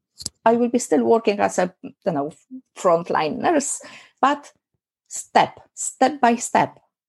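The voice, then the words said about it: Non-native English accent. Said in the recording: “English is my second language ... because of my accent ... If I'm going to say something with my accent, that's me.”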